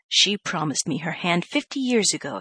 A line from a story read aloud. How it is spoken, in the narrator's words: exclaimed Mr